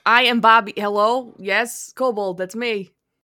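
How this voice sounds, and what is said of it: Character voice with city-boy accent. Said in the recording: “he had a different accent ... you were like city boy ... I had to get back into the voice ... It's a good voice.”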